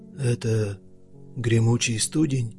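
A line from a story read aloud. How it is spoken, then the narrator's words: Quiet question. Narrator (Russian): спросил Клык негромко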